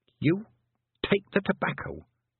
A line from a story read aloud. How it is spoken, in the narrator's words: hissed Tiffany